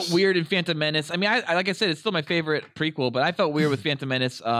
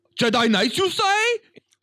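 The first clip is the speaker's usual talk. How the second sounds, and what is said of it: Mock Asian accent. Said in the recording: “with the Asian accents?”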